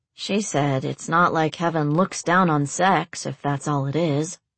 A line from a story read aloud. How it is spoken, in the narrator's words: Alex muttered